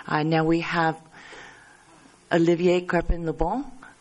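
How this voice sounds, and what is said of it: Put-on French accent. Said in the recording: “I'm trying my French accent.”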